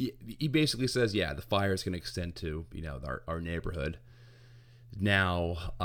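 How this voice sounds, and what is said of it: Usual voice. Nothing is said of it.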